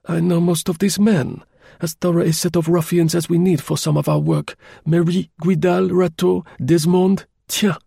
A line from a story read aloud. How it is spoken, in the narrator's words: he exclaimed